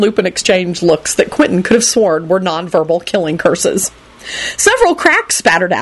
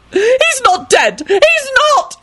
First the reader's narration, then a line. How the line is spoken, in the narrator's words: Lady Fanshawe screamed angrily